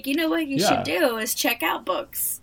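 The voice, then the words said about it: Old lady voice. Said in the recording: “That's my old lady voice.”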